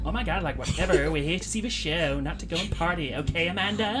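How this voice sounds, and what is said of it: American valley girl accent. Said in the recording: “your American accent ... I was doing, like, the kind of valley girl ... I give that a 12 out of 10 rating ... the best one yet”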